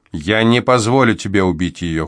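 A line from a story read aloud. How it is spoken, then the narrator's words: Cold. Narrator (Russian): холодно сообщил он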